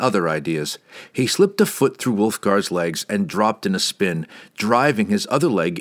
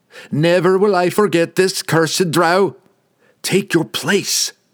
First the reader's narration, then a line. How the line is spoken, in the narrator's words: Drizzt yelled back at him from across the plains